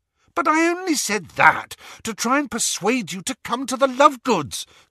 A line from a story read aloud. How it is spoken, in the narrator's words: cried Hermione in exasperation